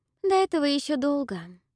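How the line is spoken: Sighing. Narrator (Russian): вздохнула Салина

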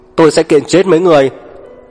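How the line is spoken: Angry shouting from behind. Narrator (Vietnamese): tức giận, gào ầm ĩ sau lưng họ

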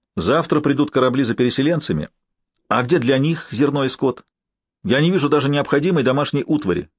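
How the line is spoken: Overly sharp. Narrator (Russian): излишне резко сказал Норман

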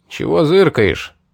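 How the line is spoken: Rude question. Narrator (Russian): грубо спросил один из всадников

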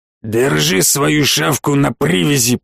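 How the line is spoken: Growling reply. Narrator (Russian): прорычал в ответ ушкуйник

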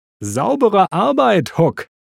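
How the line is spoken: Called out. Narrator (German): rief Holly

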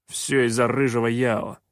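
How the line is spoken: Grumbling. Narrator (Russian): проворчал Шутай

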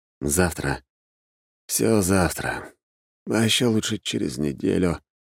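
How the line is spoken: Sleepy mutter. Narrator (Russian): пробормотал я

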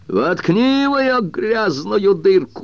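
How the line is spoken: Shouting. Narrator (Russian): закричал Уилли

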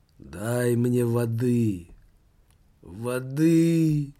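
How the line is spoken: Moaning. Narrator (Russian): Нищий застонал

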